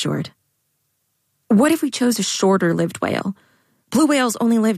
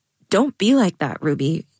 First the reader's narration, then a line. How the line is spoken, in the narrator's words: Jade said